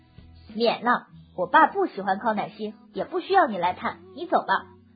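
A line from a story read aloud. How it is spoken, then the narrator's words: Angry rebuke. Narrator (Chinese): 我把脸一沉，怒斥道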